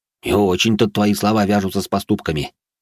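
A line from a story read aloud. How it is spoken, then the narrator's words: Big man's snort. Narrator (Russian): хмыкнул темнокожий громила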